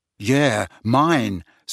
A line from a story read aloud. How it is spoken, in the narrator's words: said Harry